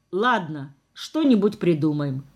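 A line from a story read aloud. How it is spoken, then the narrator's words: Calm fatherly reply. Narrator (Russian): спокойно ответил отец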